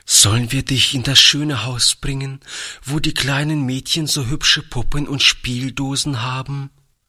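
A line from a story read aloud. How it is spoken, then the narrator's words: Trembling voice. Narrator (German): fragte Toni mit zitternder Stimme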